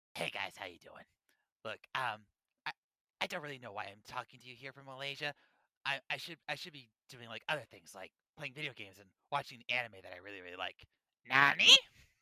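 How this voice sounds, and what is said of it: Imitates another person's voice. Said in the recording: “That was my incredible impersonation. That was incredibly accurate.”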